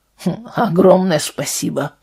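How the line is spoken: Grumble. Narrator (Russian): пробурчал Вальтер

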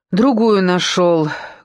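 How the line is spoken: Hollow, muffled. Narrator (Russian): глухо проговорил Серинов

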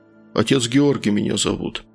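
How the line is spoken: Calmer deep bass. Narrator (Russian): пробасил он уже спокойнее

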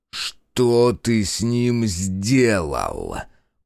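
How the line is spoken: Angry interrogator's growl. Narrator (Russian): прорычал дознаватель

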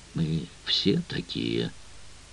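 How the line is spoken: Tired. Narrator (Russian): устало сказал Крейг

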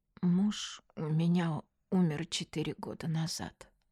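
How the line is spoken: Trembling voice. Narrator (Russian): дрогнувшим голосом сказала Аня

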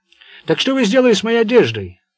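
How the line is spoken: Loud question. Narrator (Russian): громко спросил

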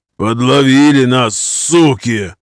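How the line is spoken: Growling. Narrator (Russian): прорычал Виталик

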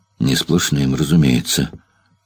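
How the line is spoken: Muttered. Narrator (Russian): пробормотал Федосеев

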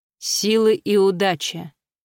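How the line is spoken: Calm teacher. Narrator (Russian): спокойно ответил учитель

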